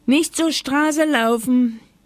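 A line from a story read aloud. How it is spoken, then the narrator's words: Grandmother calling from window. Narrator (German): rief Oma Huber vom Fenster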